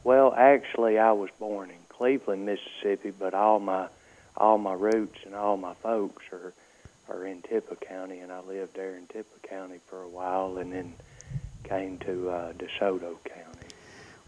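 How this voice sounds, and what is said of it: Southern US accent. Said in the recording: “I detect from your accent you must be from the South.”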